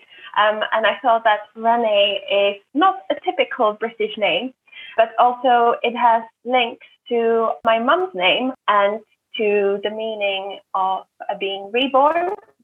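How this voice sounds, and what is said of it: Slight non-British accent. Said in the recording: “I have a slight accent, which means that I wasn't born in the UK”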